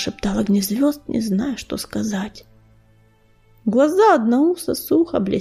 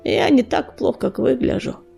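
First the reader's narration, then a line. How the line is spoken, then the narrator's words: Hoarse croak. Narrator (Russian): прохрипел он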